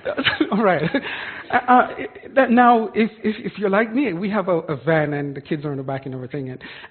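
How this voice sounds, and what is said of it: Jamaican accent. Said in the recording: “I'm from Jamaica, so if you hear an accent, that's where that is from”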